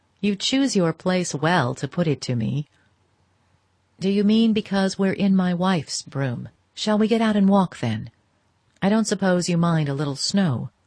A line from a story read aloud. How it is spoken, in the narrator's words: She laughed again, more gently